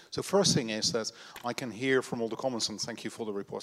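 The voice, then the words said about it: Dutch-accented English. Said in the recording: “The accent is from the Netherlands”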